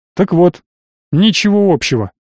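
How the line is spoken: Snorting. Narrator (Russian): хмыкнул

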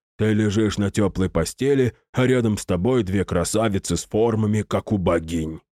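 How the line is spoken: Displeased mutter. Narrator (Russian): как-то недовольно пробурчал он

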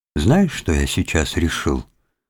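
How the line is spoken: Cheerful voice. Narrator (Russian): сказал он веселым голосом

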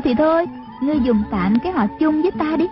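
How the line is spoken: Smiling. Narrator (Vietnamese): Trung Linh mỉm cười đáp

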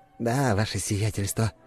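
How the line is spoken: Mumble. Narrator (Russian): пробормотал Лаврентий Никифорович

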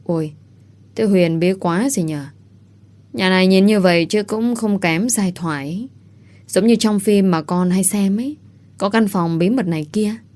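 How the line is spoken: Low voice. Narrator (Vietnamese): Ngàn Vũ nghe xong thì khẽ gật gù, cô cũng thấp giọng theo dì Liễu

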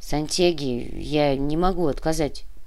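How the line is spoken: Grumbling. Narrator (Russian): буркнул Кортес

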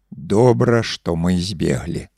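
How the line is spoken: Drunken mutter. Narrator (Belarusian): нецвяроза прамармытаў

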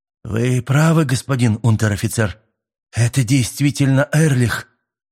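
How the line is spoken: Trembling voice. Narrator (Russian): дрожащим голосом проговорил солдат

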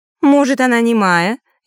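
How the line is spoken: Snide question. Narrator (Russian): ехидно спросила темная фея

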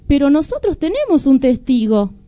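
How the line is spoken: Young man's exclamation. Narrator (Spanish): exclamó el hijo del campesino

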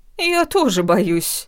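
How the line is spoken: Laughing, unimpressed. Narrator (Russian): Ничуть не впечатлившись, захохотала противница

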